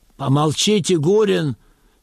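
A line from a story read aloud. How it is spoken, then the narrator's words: Plain. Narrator (Russian): сказал начальник лагеря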